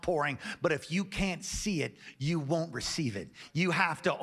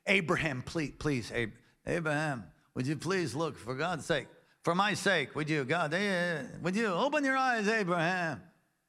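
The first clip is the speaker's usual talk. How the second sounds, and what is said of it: God voiced like a cheap comedian. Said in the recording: “can you stop using that accent for God? Make him sound like he's some sort of a cheap comedian or shoe salesman or something”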